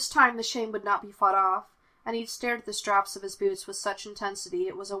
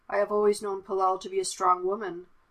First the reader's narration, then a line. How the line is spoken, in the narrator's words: said, his tone gentle